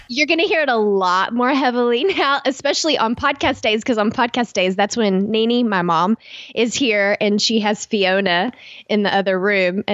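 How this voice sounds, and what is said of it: Thick regional accent. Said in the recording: “you have like a pretty thick accent that comes out ... the accent is very thick when she's in town”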